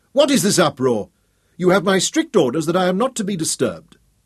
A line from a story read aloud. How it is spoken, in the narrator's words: shouted irritably